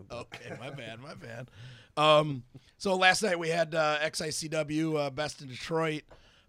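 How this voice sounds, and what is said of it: Hoarse, strained voice. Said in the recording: “My voice is trashed”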